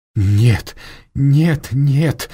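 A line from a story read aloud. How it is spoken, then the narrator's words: Anguished wail. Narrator (Russian): взвыл Леон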